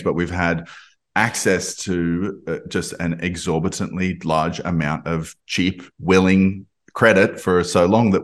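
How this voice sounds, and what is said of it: Australian accent. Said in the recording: “I'm Australian. You can probably hear from my accent”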